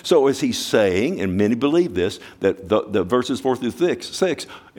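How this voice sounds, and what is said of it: Very fast, stuttering speech. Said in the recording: “I'm going so fast I'm stuttering”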